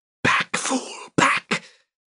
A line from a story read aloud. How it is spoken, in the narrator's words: a whisper in a well-known voice